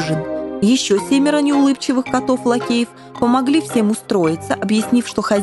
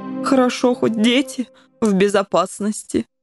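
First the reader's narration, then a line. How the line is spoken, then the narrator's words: Sighing. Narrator (Russian): вздохнул пан Коржик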